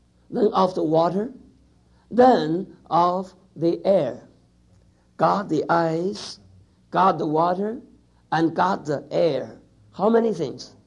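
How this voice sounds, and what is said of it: Speaks with a noticeable accent. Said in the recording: “Isn't that my beautiful accent?”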